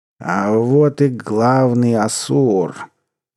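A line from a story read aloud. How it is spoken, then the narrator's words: Drunken mumble. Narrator (Russian): пьяным голосом пробормотал Мучо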